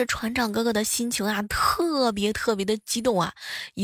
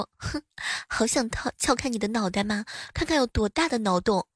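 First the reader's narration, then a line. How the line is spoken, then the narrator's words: Murmuring. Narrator (Chinese): 喃喃的说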